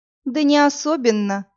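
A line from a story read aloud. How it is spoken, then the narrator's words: Regretful sigh. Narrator (Russian): с сожалением вздохнула Иви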